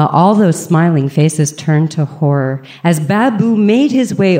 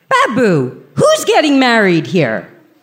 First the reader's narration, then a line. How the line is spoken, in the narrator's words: me yelling across the room